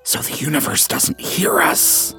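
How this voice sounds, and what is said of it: Whispering. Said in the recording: “Why are we whispering?”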